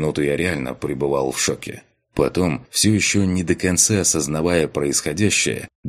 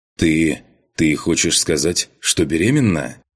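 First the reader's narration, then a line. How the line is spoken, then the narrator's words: Forced calm question. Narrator (Russian): спросил я, стараясь, чтобы мой голос звучал спокойно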